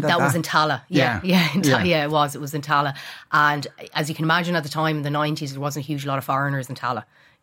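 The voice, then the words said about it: Dublin Irish accent. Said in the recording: “you have a dub accent.”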